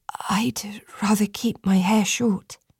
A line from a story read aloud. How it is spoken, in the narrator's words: Ren whisper